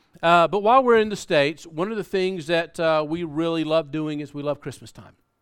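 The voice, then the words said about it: Southern US accent. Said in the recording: “We grew up in South Carolina, and if you haven't been able to pick up on that accent, you'll probably get it now.”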